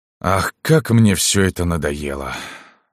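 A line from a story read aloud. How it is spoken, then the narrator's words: Weary sigh. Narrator (Russian): вздохнул Мирзоян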